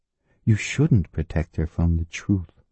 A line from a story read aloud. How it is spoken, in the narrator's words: Mary said quietly